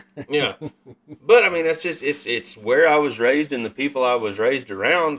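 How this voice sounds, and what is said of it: Strong regional accent. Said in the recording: “I went to a speech therapist when I was younger to try to get rid of my accent, and it didn't fucking work ... this is just the way that I talk”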